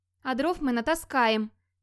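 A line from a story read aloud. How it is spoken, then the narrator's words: Thin timid voice. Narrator (Russian): тоненьким голосом заверил Гроди, впервые за день осмелившись открыть рот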